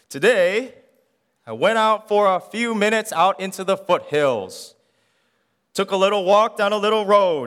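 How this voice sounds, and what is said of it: Imitates a preacher's voice. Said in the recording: “I'll try my best to do a Billy Graham voice”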